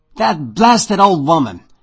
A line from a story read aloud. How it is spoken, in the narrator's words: I spat